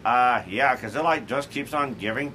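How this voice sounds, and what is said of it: Beavis and Butthead cartoon voice. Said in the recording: “I couldn't resist the chance to do my Beavis and Butthead impression.”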